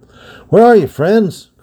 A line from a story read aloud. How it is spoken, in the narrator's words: cried Rodney, halting in the dark and the silence